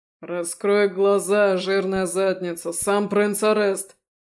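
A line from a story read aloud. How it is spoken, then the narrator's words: Barked. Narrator (Russian): гаркнул их проводник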